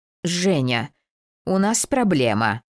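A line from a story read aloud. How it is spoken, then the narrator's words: Stern reminder. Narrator (Russian): строго напомнил добрый гений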